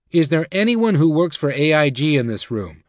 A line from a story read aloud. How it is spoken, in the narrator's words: a voice shouted out